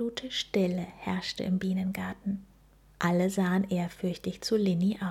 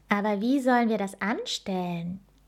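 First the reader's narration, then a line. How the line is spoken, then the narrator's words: Calling out. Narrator (German): Linnys bester Freund Leo rief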